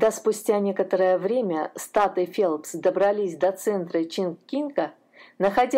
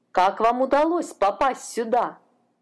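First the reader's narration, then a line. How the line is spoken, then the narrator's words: Exclamation. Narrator (Russian): воскликнул консул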